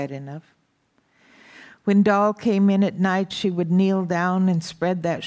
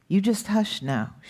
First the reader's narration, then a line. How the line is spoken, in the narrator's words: she said